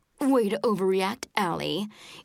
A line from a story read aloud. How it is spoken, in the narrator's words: in her snottiest voice